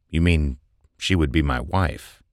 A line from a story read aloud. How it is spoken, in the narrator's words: Thomas replied in a thoughtful voice